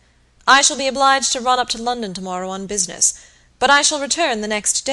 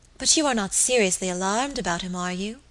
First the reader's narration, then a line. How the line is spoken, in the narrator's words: asked anxiously